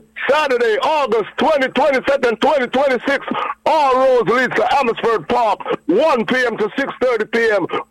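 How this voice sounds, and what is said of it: Radio announcer voice. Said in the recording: “You have a radio voice ... You have a radio voice, man.”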